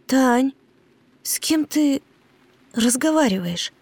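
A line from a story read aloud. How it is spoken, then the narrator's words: Trembling question. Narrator (Russian): Дрожащим голосом спросила Ева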